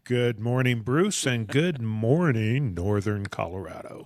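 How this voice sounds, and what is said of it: Exaggerated radio announcer voice. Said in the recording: “putting on his radio voice”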